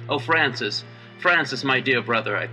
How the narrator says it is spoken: I cried

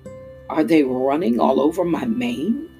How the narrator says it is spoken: asked the lion through clenched teeth

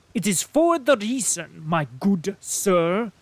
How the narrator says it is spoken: said he, speaking with a German accent

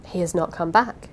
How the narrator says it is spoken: said, quietly

